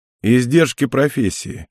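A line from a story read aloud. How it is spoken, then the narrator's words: Snorting chuckle. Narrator (Russian): хмыкнул Мэтт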